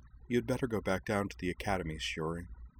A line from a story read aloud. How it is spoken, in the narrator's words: said Anthy gently